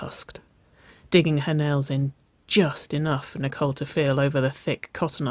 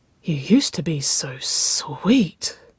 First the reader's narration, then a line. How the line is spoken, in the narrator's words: Nicole breathed, her lips curling in amusement